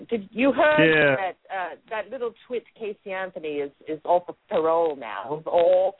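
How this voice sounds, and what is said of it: Put-on British accent. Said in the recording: “in my British accent.”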